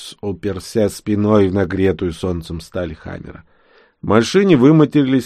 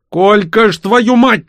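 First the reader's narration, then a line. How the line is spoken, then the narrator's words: Yelled. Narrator (Russian): заорал Васильевич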